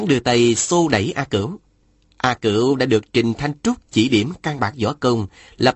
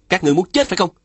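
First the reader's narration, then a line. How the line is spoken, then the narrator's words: Frightened, then angry shout. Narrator (Vietnamese): Phùng Bất Thôi bất giác khiếp sợ, nhưng lập tức giận dữ hét lên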